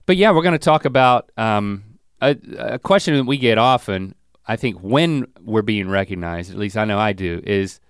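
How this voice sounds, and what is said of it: Voice sounds sick with a cold. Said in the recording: “I got a cold. Like I'm 3 days into this thing.”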